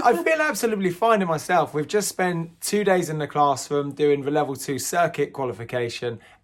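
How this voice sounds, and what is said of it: Hoarse, croaky voice. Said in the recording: “apologise for my croaky... hoarse... voice. It's, really it's not good... my voice was starting to go... put my voice completely on the back burner”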